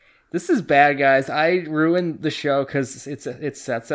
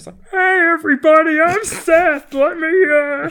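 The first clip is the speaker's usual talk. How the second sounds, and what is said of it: Imitates another person's voice. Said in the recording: “my Seth impression”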